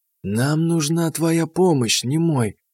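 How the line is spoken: Quiet. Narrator (Russian): негромко сказала она

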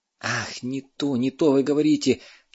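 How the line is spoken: Near groan. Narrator (Russian): чуть не застонал Сушков

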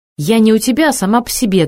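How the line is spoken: Snapped. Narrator (Russian): огрызнулась

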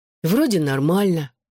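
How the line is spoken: Sighing. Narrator (Russian): вздохнул Дэвин

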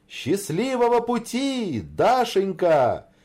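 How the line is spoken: Shouted farewell in unison. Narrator (Russian): крикнули они хором на прощание

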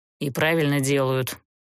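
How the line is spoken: Grumbling. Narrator (Russian): проворчал Герт

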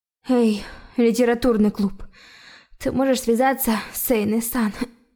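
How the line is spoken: Hoarse croak. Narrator (Russian): прохрипела президент

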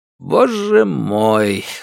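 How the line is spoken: Sighing. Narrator (Russian): вздохнул начальник Хуан

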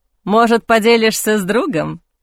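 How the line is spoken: Chuckle. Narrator (Russian): хохотнул Кристофер

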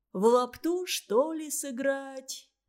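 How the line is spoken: Lazy suggestion. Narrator (Russian): лениво предложил он

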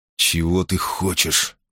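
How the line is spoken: Hissing. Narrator (Russian): прошипел он другу

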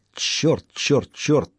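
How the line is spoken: Muttered. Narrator (Russian): пробормотала она

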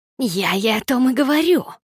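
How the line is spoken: Exclamation from another room. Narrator (Russian): воскликнула Никс из другой комнаты

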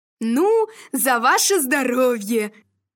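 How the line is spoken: Shouting. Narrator (Russian): кричал Иваныч

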